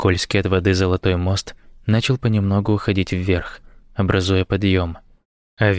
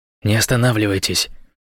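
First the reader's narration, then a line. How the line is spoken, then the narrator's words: Whisper. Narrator (Russian): прошептал он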